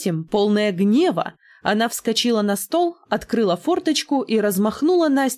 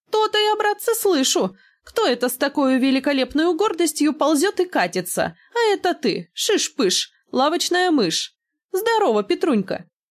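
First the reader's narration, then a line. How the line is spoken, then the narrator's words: Lively laughing woman. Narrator (Russian): кучерявая бабелина рассмеялась и бойко продолжала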